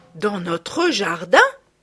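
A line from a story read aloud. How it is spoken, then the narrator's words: Two sisters exclaiming together. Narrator (French): s'écrièrent à la fois les deux sœurs qui n'avaient plus envie de rire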